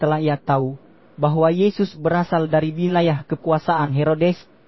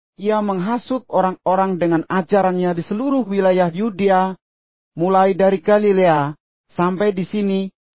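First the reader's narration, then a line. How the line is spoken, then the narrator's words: Loud demanding shouts. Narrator (Indonesian): mereka menuntut sambil berseru dengan keras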